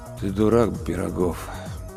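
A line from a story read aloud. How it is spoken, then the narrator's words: Dull ghostly voice. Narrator (Russian): тусклым голосом произнес призрак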